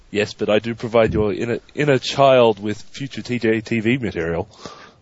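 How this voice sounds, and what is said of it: Australian accent. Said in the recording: “Australian ... You're not the first Australian”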